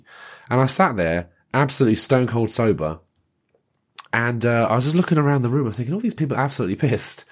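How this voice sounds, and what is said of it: Sounds a little ill. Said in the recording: “Don't know if you can tell that by my voice. I'm a little bit ill.”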